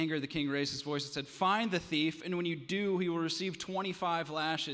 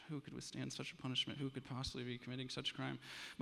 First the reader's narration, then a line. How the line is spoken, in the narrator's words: The people began to murmur amongst themselves